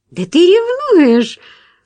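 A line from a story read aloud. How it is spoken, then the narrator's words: Pleased exclamation. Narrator (Russian): снова воскликнула она довольно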